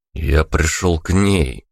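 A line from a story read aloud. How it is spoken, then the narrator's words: Dull muffled answer. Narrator (Russian): глухо ответил я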